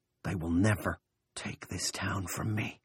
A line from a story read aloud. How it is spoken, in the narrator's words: Big Jim whispered